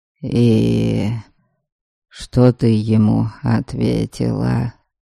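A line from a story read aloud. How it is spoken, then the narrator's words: Hoarse question. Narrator (Russian): хрипло спросил Дариан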